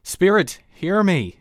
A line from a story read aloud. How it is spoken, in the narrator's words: he cried